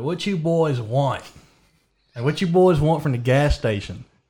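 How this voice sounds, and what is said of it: Put-on country accent. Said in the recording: “I was like talking in my country accent.”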